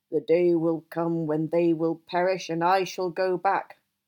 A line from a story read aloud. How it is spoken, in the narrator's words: growl in the tongue of bears